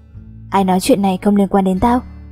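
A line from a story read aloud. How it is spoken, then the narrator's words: Cold, word by word. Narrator (Vietnamese): Phong lạnh lùng nhả từng chữ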